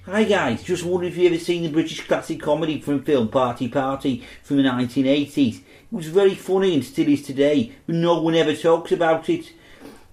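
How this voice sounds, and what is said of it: Put-on Liverpool accent. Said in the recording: “I'll do this in Liverpool accent.”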